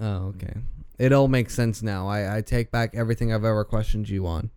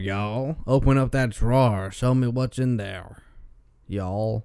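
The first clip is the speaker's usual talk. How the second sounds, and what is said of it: Put-on Southern drawl. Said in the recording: “It's that nice southern drawl, you know? ... that nice southern drawl”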